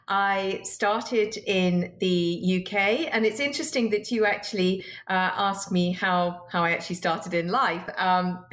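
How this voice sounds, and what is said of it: British accent. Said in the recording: “Your accent suggests perhaps you came from someplace else ... my accent is a little bit of a giveaway”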